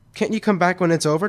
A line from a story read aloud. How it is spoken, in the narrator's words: Tom asked